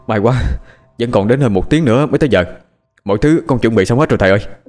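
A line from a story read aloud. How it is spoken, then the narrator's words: Panting speech. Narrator (Vietnamese): vừa thở hổn hển vừa nói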